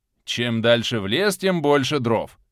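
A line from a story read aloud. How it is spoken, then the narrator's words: Grumbling. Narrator (Russian): ворчал Боровой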